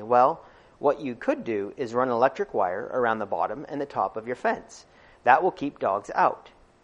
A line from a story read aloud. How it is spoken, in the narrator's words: He lost his sullen expression and he replied calmly